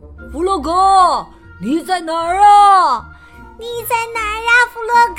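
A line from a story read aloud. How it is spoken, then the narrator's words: Anxious loud calling. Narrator (Chinese): 野兔、老鼠和小鸭，他们在焦急的大声叫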